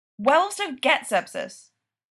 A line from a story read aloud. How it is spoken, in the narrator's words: Daria barks